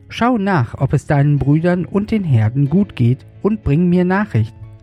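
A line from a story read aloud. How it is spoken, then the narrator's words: Plain, father. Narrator (German): sagte sein Vater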